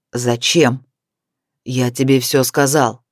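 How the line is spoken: Fierce, through gritted teeth. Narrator (Russian): Свирепо процедил он

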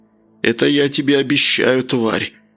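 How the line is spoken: Hiss. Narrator (Russian): прошипел капитан

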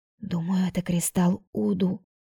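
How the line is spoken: Hoarse whisper. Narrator (Russian): прошептала Тайра хрипло

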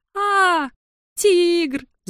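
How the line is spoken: Gnomes screaming. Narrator (Russian): завопили гномы

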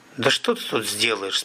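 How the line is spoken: Plain. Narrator (Russian): спросил он

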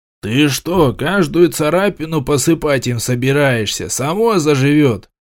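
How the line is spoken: Curt retort. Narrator (Russian): отрезал искатель

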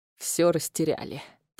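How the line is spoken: Old man laughing softly. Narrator (Russian): тихо рассмеялся старик

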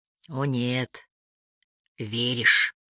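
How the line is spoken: Quiet. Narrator (Russian): тихо сказал Ли

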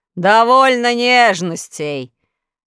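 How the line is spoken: Rough shout. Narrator (Russian): грубо закричал Урфинджус

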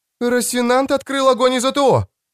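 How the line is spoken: High sharp report. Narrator (Russian): Высоким резким голосом доложила Оксана

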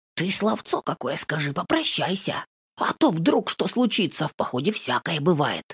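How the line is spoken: Eager excited whisper. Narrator (Russian): неугомонный зашептал на ухо горячо, взволнованно

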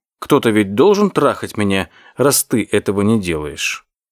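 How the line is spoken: Calm reply. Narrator (Russian): она спокойно ответила

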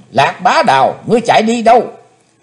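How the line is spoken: Sudden loud yell. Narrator (Vietnamese): Chí Tôn bỗng thét lớn

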